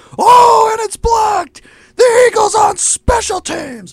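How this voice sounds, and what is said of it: Poor imitation of a sportscaster's call. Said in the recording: “I'm doing a really bad job ... He just has a hard voice to... ... a hard voice to reenact”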